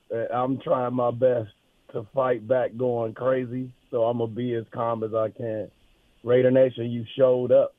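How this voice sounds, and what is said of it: Hoarse, nearly lost voice. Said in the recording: “my voice is totally gone”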